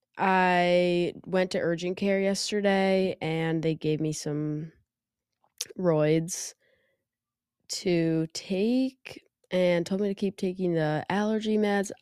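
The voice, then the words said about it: Nasal, congested sick voice. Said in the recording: “I don't know if you can hear in my voice. I am a bit sick... my voice is nasally”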